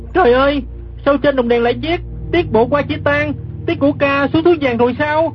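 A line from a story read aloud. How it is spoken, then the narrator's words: Startled cry. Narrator (Vietnamese): Gã kép hát giật mình la lên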